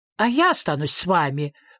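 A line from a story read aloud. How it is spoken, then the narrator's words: Exclaimed. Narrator (Russian): воскликнула дочь Мимлы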